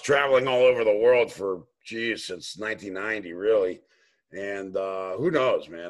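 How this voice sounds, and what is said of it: New York tough-guy accent. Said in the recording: “a kind of a New York tough guy kind of brogue that I heard that I thought maybe this is a fellow New Yorker”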